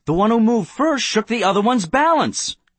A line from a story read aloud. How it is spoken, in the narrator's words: Someone exclaimed